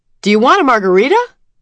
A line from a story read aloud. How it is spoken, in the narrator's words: yelled the insipidly chirpy waitress